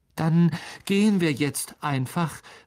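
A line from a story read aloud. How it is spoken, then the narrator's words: Desperate call. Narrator (German): rief Harry verzweifelt Aragog zu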